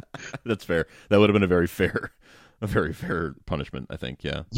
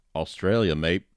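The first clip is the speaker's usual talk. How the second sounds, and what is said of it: Put-on Australian accent. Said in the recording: “If you didn't say it in an Australian accent”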